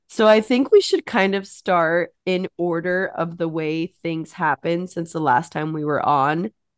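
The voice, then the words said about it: Sick, hoarse voice. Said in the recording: “sorry for my voice ... as you can tell, I'm very sick”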